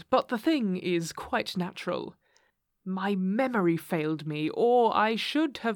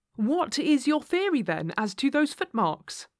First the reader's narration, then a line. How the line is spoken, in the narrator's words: I asked eagerly